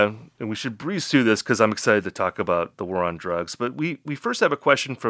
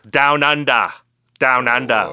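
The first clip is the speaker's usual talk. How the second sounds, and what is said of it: Attempted Australian accent. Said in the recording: “That's a pretty good Australian accent. Okay, maybe not.”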